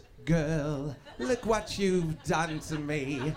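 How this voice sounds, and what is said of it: Imitates another person's singing voice. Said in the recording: “He's gonna sing it like this. ... that kind of imitation”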